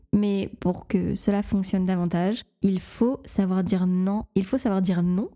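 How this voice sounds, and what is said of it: Northern French accent. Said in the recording (French): “mon accent du, du Nord euh, ressort”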